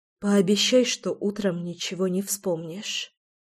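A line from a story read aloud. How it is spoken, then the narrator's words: Quiet plea. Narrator (Russian): тихо попросила я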